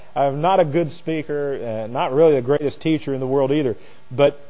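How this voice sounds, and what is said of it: Nasal Hoosier twang. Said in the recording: “I've got this nasal Hoosier twang. People accuse me all the time of saying "warsh."”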